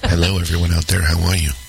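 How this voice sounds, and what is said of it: Sultry radio DJ voice. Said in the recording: “my amazing sultry radio voice.”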